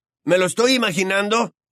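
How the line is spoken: Shouted after silence. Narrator (Spanish): gritó Ron tras un rato de silencio

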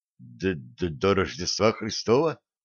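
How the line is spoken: Whispered question. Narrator (Russian): поручик спросил почему-то шепотом

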